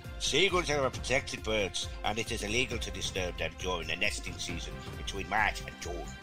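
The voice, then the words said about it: Put-on Irish accent. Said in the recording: “I was doing an Irish accent. ... I think you channeled that very well.”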